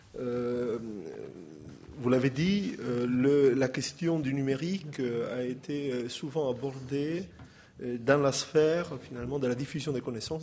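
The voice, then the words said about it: Italian accent in French. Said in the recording (French): “mon accent italien”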